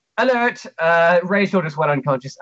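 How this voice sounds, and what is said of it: Character voice with botched accent. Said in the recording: “I just did the wrong accent by a long shot... I'm trying to do 6 accents at once right now, and none of them are coming out.”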